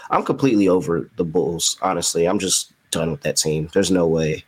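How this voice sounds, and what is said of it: Frustrated tone of voice. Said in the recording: “hear the frustration in my voice”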